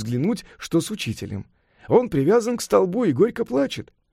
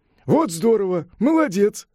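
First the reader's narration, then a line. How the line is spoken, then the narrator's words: Laughing praise. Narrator (Russian): похвалил его, смеясь, Сунь-Укун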